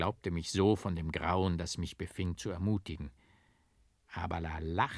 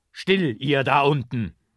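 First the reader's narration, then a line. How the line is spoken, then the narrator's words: Called out loudly. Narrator (German): rief ich laut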